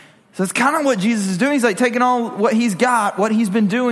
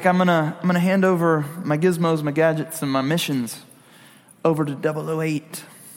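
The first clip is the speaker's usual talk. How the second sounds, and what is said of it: Put-on English accent. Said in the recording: “with an English accent”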